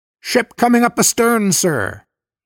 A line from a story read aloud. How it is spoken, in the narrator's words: Above the ringing of the alarm bell, somebody shouted from the boat deck